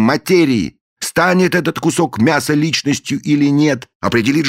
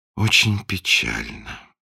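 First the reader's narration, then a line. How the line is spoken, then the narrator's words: Sigh. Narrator (Russian): вздохнул принц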